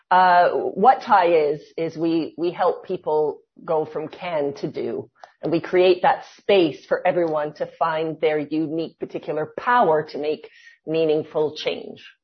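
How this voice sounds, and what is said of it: Canadian accent. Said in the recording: “my accent's Canadian”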